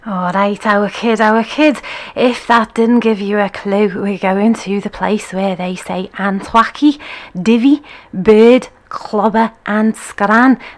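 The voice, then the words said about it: Bad put-on Scouse accent. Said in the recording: “my bad Scouse accent ... the bad accent”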